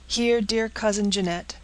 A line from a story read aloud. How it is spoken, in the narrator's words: cried the youth, as with trembling hands he broke the seal